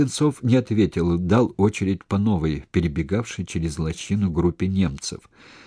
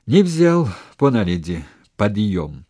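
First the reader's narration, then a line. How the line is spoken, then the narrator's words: Joyful. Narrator (Russian): радостно сказал Сенцов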